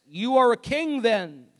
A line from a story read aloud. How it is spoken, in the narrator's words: said Pilate